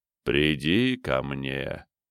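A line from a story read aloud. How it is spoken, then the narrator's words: Gentle coaxing parental tone. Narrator (Russian): тон голоса, который звучал мягко, как голос родителя, уговаривающего ребенка принять горькое лекарство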